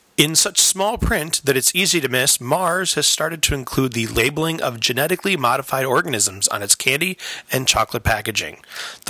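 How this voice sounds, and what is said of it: Formal radio announcer voice. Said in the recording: “Dust off my radio voice from all those high school speech contests.”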